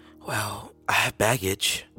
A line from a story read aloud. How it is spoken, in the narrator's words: whispered